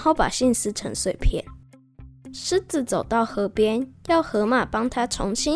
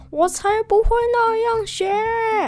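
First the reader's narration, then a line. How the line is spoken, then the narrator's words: Loud shout. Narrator (Chinese): 狮子大叫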